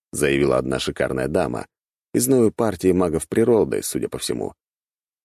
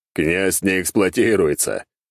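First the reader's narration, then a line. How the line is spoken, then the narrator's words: Loud laughter. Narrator (Russian): расхохотался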